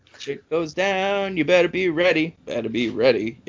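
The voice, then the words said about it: Imitates another person's voice. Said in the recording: “my impression... That's how he does it”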